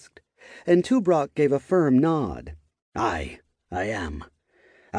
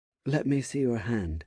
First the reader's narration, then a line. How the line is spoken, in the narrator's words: she said, in a gentle tone